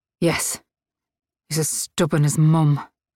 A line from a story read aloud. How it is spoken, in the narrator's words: Claire muttered